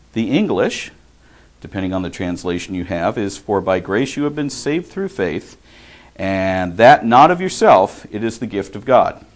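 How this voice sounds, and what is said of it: Southern California accent. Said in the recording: “Southern California accent”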